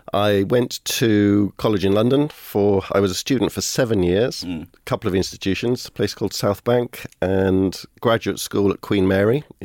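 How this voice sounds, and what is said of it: Mild South Welsh Cardiff accent. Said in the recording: “I would have had a stronger South Walian Cardiff accent, which is very like the Scouse accent... there's a bit of Cardiff in there as well”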